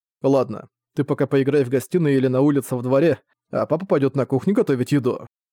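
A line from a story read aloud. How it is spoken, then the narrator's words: Giggling. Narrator (Russian): Цзуи хихикнул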